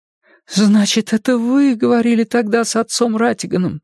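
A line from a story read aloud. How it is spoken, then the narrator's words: Sighing. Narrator (Russian): вздохнула она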